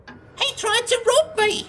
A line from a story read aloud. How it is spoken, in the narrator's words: she cackled